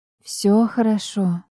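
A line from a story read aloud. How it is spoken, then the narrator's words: Quiet. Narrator (Russian): тихо сказала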